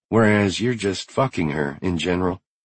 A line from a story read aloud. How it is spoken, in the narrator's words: Kara muttered under her breath